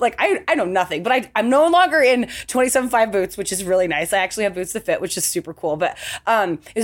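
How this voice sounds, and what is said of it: Usual voice. Nothing is said of it.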